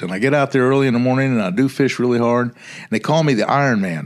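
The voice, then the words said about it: Slow Southern American accent. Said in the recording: “I kind of speak slowly in a Southern accent”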